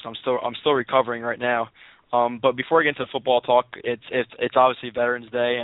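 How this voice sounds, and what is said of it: Hoarse, nearly lost voice. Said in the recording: “apologize for my voice right now. I went to the game and I lost my voice.”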